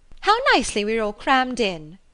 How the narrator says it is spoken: cried Lydia

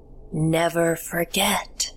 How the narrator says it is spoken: I heard her croak

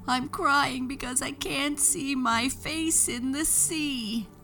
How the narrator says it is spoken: sobbed Moon

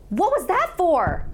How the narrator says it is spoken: I yelled at him

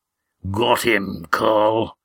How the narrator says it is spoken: grunted a rough voice

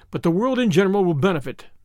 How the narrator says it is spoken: said Julius cheerfully

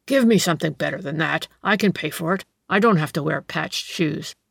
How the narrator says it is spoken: he grunted

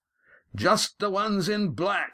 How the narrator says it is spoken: he shouted

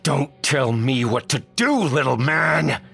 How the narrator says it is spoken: roared

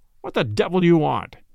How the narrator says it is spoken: the man's voice demanded harshly

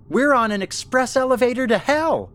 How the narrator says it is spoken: Ellen shouted

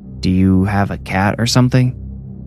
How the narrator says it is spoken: Adrian asked

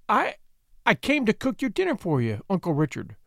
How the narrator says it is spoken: she stammered

